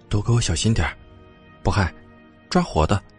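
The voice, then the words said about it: Quiet, hushed command. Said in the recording (Chinese): “小声的吩咐，生怕惊走了雪雕”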